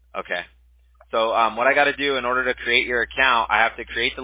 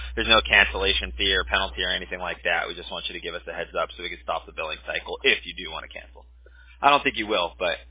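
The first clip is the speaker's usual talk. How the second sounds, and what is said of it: Very fast scripted speech. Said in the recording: “That's why I'm able to say it so fast.”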